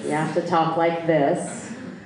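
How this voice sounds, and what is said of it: Put-on American accent. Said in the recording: “I'm teaching American accent”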